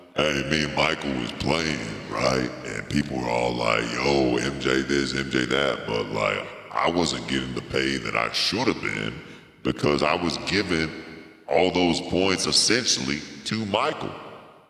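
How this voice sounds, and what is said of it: Deep voice imitating another person. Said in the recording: “he has a very very deep voice ... it's exactly how it sounded”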